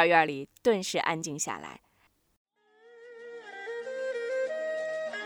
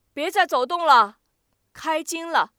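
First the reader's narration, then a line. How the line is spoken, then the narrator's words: Calling out. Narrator (Chinese): 少元对外边喊了句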